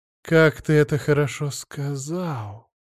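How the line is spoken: Languid sigh. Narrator (Russian): Томно вздохнула Кира

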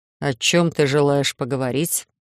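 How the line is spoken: Earth rumbling underfoot. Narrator (Russian): прогудела земля у меня под ногами

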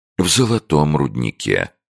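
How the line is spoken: Calm. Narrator (Russian): спокойным тоном подтвердил доктор

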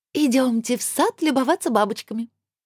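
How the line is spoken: Cheerful suggestion. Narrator (Russian): радостно предложила она

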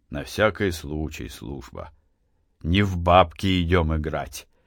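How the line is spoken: Calm reply. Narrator (Russian): спокойно ответил Матвей

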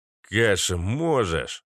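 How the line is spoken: Deep bass voice. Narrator (Russian): пробасил Изолента

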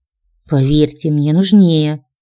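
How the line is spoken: Stubborn, through teeth. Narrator (Russian): упрямо процедила

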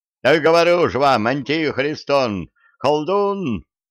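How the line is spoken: Nobleman yelling. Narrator (Russian): завопил боярин Жеребцов

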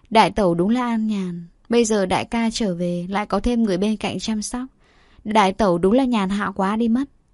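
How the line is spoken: Mocking. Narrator (Vietnamese): Thục Linh châm chọc

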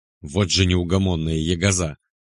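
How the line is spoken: Reproachful yet loving grumble. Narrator (Russian): пробурчал мужик, но в словах, кроме осуждения, еще явно читалась любовь и тревогу

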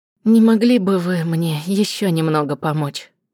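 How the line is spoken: Sighing. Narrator (Russian): вздохнула

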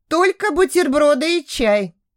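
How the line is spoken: Sigh. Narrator (Russian): вздохнула Даша

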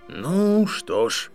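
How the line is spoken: Sighing. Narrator (Russian): вздохнул Дамблдор

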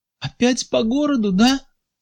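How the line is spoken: Tearful question. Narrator (Russian): спрашивала она, глядя на Сергея сквозь слезы

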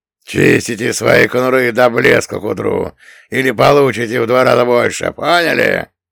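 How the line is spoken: Barking shout. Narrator (Russian): рявкнул Одноглазый

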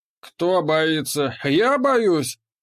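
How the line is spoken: Laughing. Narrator (Russian): засмеялся Воракута

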